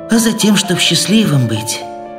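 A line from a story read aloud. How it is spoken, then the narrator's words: Sudden speech, heavy sigh. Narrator (Russian): вдруг сказал, тяжело вздохнув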